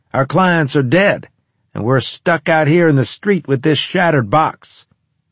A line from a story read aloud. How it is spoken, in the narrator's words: he snapped